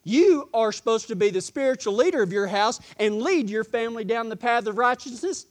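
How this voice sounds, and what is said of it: Texas accent, speaking quickly. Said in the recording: “My tongue got going a little fast there from my Texas accent.”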